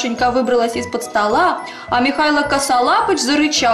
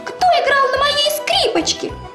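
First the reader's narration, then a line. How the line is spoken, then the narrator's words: Squeaking. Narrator (Russian): пропищал Мишутка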